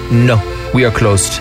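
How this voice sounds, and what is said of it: Put-on French accent. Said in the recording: “Was that your French accent? ... Yes, that's my French accent.”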